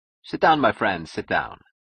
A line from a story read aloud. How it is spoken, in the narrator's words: Francone smiled and said cheerfully